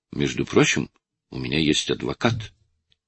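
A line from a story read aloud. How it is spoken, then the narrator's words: Calmer speech. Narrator (Russian): уже более спокойно проговорил Суарес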